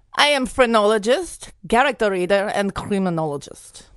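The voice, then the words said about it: Put-on Russian accent. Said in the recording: “a foreign accent of Russian flavour”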